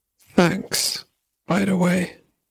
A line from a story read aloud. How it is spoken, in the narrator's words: he muttered